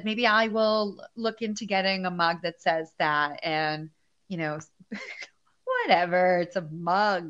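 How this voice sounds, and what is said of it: Strong East Coast American accent. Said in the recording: “I love your accent just went like full blown. And you're like, it's a fucking mug. ... That East Coast shit is real.”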